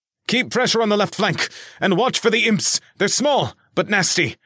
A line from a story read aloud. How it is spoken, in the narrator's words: Spencer shouted to his own team